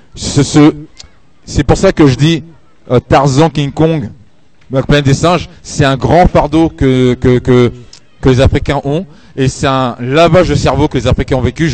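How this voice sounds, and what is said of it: Strong Parisian French accent. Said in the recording (French): “mon accent ... je suis plus parisien qu'un parisien”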